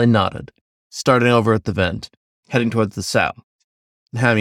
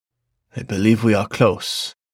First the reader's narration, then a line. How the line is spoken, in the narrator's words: he whispered